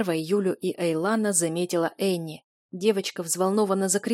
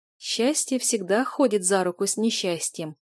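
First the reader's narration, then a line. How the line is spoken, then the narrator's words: Sigh. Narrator (Russian): вздохнула Юля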